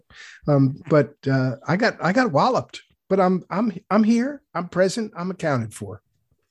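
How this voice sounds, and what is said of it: Foggy, under-the-weather voice. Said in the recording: “you're a little under the weather ... My voice is a little foggy”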